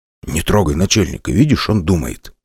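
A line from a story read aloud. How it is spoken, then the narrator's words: Whisper. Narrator (Russian): шепнул Гена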